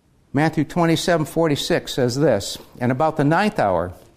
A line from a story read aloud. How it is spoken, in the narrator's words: Jesus cried with a loud voice, saying